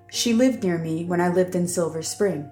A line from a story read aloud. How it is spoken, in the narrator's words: Ziva said, stifling a yawn